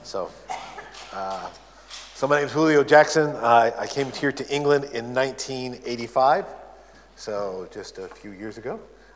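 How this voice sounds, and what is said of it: American accent. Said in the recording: “You tell by the accent, I'm an American. Sometimes people say, are you Canadian?”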